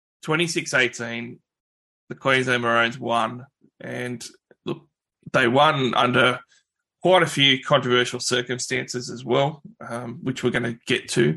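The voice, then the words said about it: Hoarse, coarse voice. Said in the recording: “my voice is a bit coarse from yelling at the TV”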